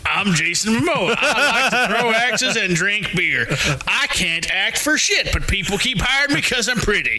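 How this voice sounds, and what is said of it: Southern-sounding impression of another person. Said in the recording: “I can do a Jason Momoa impression. ... That's not how he sounds. I'm pretty sure he's not Southern.”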